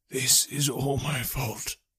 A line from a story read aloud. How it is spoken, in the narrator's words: whispered